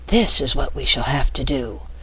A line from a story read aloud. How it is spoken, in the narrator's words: began the Rat, in the hollow whisper of a secret party